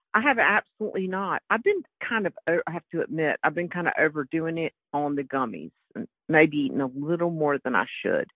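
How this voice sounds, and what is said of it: North Carolina accent. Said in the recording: “from North Carolina ... you could have known that from my accent”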